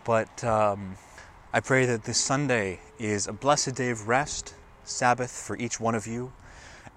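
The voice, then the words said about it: Slightly hoarse voice. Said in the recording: “My voice is getting a little hoarse.”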